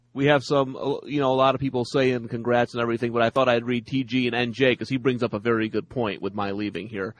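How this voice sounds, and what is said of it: Nasal twang. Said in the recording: “your nasal twang”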